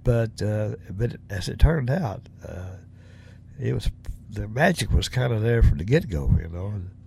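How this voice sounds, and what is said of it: Southern US accent. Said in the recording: “I'm from the South, from Tennessee. I definitely got a Southern dialect, you know, as far as my accent.”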